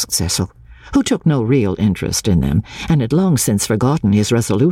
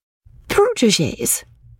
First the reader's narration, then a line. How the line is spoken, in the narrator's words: she exclaimed with some warmth